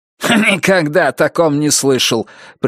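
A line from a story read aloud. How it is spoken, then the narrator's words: Dismissive snort. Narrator (Russian): пренебрежительно фыркнул Буллард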